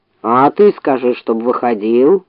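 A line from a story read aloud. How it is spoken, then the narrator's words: Grumbling. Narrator (Russian): проворчал медведь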